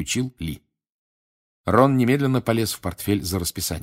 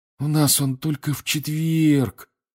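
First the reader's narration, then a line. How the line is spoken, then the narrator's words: Disappointed sigh. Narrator (Russian): разочарованно вздохнул он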